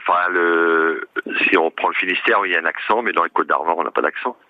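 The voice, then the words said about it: Breton French accent. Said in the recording (French): “Vous avez un accent ... Non, j'ai l'accent breton. Ah bah oui, c'est donc un accent.”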